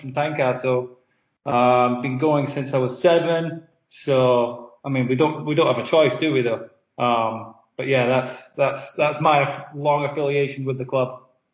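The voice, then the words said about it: Accent with transatlantic twang. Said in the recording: “my accent at the start, which is absolutely appalling ... transatlantic twang”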